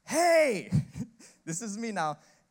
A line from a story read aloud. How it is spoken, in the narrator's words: yelled